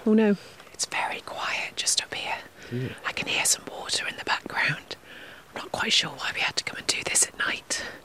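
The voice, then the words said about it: Whispering. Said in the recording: “I don't know why I'm whispering.”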